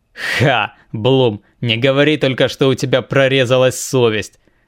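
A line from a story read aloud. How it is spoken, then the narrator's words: Laughing. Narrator (Russian): рассмеялся Фенрис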